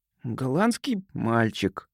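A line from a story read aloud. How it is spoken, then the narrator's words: Nervous, after a gulp. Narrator (Russian): Тони судорожно глотнул, глубоко вздохнул и сказал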